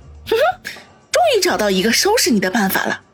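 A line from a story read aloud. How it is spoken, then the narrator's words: Smug quiet mutter. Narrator (Chinese): 得意的一笑 小声自语道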